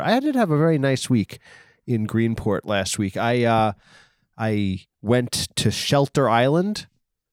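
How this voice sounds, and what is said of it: Strong Long Island accent. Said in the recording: “my unlistenable Long Island accent”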